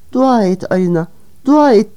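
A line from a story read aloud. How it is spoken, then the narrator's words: Moaning. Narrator (Turkish): diye inledi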